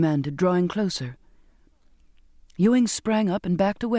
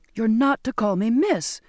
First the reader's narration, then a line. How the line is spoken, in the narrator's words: cried out in exasperation